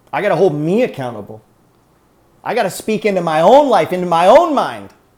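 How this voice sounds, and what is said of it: Yelling loudly. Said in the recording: “Who do you think I'm yelling at?”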